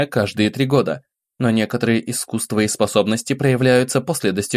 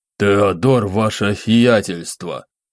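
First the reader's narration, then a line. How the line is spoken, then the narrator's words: Slight lisp. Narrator (Russian): Отличился легкой шепелявостью этот недоумок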